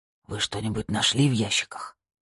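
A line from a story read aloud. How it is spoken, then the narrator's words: Whispered. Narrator (Russian): прошептал он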